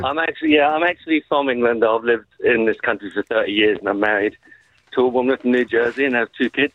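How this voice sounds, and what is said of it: English accent. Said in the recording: “Look at the accent. The accent.”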